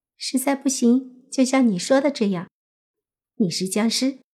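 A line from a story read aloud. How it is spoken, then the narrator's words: Smiling whisper. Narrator (Chinese): 林西月笑了笑，凑到莫凡耳边，小声说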